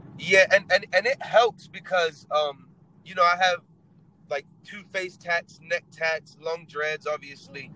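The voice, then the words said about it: Mixed English accent, disarming. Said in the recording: “Is this a British accent? Is this Australian? ... it's just very confused, but it originates in England ... the accent is great for sales because it's so disarming ... so non-threatening”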